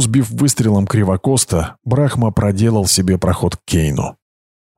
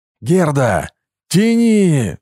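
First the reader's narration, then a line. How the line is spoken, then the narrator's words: Yelled. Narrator (Russian): заорал Брахма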